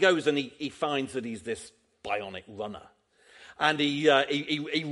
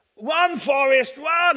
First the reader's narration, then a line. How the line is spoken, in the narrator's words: shouts, doesn't she, to him